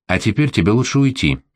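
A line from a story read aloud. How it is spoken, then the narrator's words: Soft, gentle. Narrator (Russian): мягко сказала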